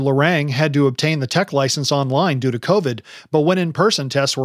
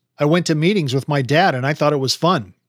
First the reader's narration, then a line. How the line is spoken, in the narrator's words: Benedict, 88FQ, said